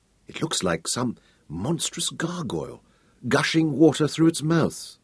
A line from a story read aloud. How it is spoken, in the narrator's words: Royan whispered